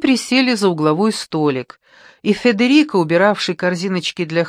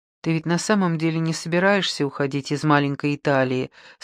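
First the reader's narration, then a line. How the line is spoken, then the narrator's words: Plain. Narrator (Russian): спросила Пьета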